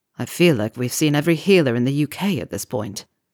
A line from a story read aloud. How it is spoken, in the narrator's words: he sighed